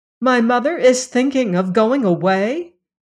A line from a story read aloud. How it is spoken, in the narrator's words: cried